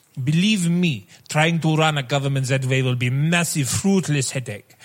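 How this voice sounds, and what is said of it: Speaks in a put-on accent. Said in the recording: “So many accents, guys... it kind of started accenting off”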